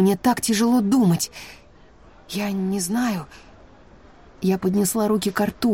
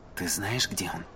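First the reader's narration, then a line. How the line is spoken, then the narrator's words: Whispered question. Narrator (Russian): Шепотом поинтересовался у меня Брэннон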